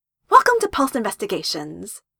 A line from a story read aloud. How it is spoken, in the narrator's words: Wendy greeted brightly